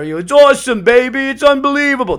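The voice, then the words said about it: Dick Vitale impression. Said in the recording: “good Dick Vitale impression, by the way.”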